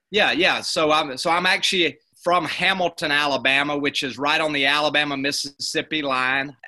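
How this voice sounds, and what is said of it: Deep Southern US accent. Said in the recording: “I have a Southern accent, but yours is a little bit farther south”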